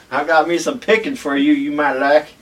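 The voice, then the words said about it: Put-on Southern twang. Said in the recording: “his voice is not that deep ... You gotta put a little southern twang on it.”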